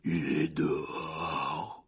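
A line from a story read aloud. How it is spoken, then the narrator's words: Hoarse reply. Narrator (French): répondit Hagrid d'une voix rauque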